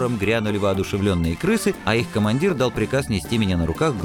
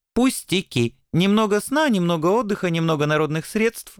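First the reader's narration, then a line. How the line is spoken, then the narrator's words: Cheerful reply. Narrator (Russian): бодро отвечал белый ангел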